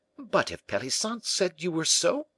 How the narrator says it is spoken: cried Moliere

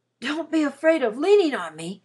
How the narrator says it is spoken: he panted

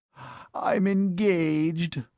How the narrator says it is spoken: groaned his lordship

